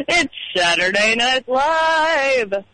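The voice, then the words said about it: Don Pardo announcer impression. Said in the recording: “let's hear your Don Pardo now.”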